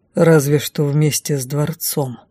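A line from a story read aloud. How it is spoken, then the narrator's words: Gloomy reply. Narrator (Russian): мрачно отозвался Дефос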